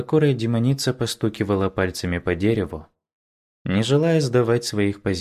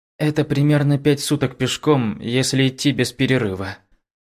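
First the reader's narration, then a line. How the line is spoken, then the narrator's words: Frightened speech. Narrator (Russian): Испуганно проговорил Юва Юань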